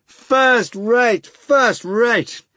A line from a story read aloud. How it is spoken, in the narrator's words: came rapturous shouts from the wings